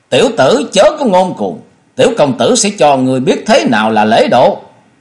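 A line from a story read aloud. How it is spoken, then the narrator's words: Angry roar. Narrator (Vietnamese): Cốc Thế Biểu thấy hai người đem mình ra diễu thì tức giận gầm lên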